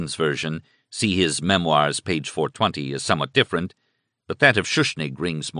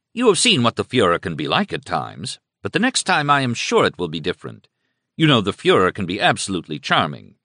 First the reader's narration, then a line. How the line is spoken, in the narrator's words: he exclaimed to them